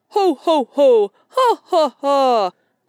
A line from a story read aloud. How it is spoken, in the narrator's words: laughed Sammy Jay